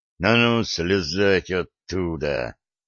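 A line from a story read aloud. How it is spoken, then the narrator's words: Hiss of cold fury. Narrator (Russian): прошипел сплетник, наливаясь холодной яростью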